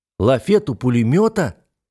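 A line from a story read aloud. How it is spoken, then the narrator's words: Exclaimed. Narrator (Russian): воскликнул я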